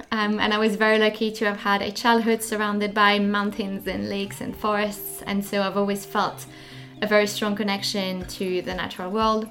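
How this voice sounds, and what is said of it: French Swiss accent. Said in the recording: “I grew up in the French part of Switzerland, so that's where the accent is coming from.”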